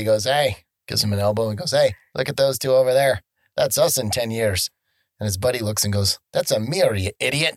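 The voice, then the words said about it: Put-on Irish accent. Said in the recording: “you are doing your Irish accent while saying it”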